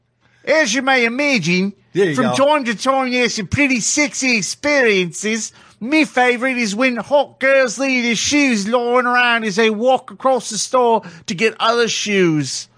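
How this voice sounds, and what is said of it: Put-on New Zealand accent. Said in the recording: “Oh, we're all doing voices now? Is that a New Zealand accent? ... That's not bad.”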